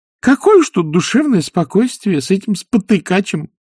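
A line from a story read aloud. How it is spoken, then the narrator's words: Cheerful. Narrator (Russian): весело сказал нянюшка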